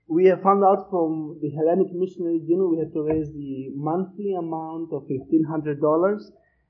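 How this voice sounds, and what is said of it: Greek accent in English. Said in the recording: “my funny Greek accent”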